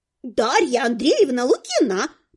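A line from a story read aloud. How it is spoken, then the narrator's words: Squeaky distant mirror voice. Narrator (Russian): пропищал голос в глубине зеркала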